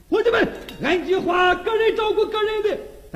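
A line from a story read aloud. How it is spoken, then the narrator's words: Bandit's shout. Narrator (Chinese): 胡子一声喊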